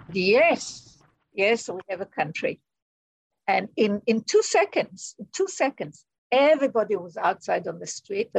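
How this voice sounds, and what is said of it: Israeli accent. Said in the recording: “you can tell by her accent that she's Israeli”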